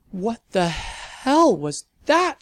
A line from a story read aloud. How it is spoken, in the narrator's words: she yelled